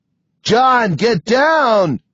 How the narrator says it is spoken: Sam is shouting at me

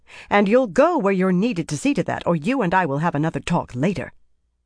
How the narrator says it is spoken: Dialin said sharply

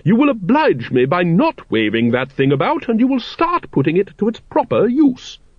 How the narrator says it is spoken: she said sharply

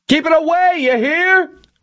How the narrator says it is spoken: Milosevic screamed

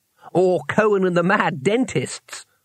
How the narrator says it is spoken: laughed Twoflower

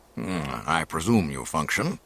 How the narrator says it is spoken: he grumbled

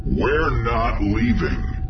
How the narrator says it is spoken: Han growled

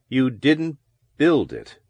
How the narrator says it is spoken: Parsons said slowly

